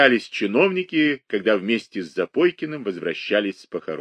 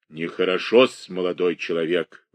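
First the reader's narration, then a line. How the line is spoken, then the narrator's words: Grumbling. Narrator (Russian): ворчал Прокофий Осипович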